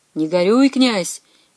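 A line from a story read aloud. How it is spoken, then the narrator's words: Answered cheerfully. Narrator (Russian): весело отмолвил ему Федор Кошка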